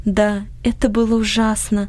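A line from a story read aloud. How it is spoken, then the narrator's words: Sigh. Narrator (Russian): вздохнула Анни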